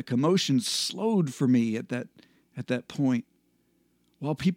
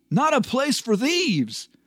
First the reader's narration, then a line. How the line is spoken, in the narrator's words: he shouted